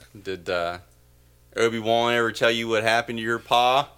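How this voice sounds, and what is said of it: Put-on southern Appalachian accent. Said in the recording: “a southern accent ... Or like an Appalachian accent.”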